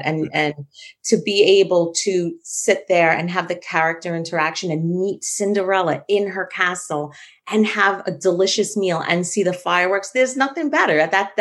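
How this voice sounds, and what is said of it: New York accent. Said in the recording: “Loved hearing that New York accent.”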